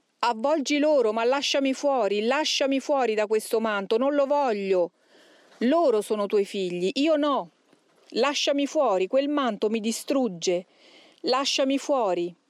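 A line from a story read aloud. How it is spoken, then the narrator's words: Shouting. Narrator (Italian): lo sentimmo ancora gridare, diceva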